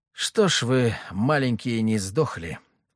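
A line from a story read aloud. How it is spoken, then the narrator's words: Muttered. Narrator (Russian): пробормотал я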